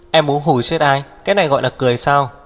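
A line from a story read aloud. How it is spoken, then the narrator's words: Displeased loud shout. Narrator (Vietnamese): Hắc Viêm Triệt không vui, hét lớn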